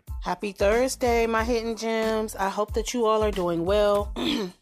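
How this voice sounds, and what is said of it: Congested, sick-sounding voice. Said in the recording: “excuse my voice ... a little congested”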